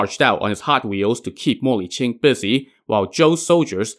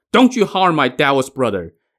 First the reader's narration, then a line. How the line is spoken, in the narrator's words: Ne Zha shouted